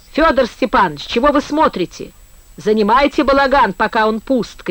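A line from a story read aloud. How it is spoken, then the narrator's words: Shouting. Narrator (Russian): кричал Колька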